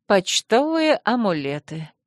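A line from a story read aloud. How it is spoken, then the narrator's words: Sighing. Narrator (Russian): вздохнула леди Модена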